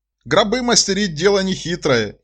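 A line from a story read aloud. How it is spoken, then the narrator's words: Uncle's giggle. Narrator (Russian): хихикает дядя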